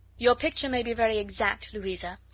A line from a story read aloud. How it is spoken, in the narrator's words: said Bingley